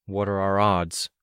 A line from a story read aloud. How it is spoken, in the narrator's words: Rain murmured